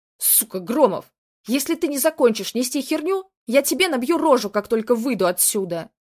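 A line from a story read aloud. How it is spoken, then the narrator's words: Furious roar. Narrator (Russian): взревел Каменев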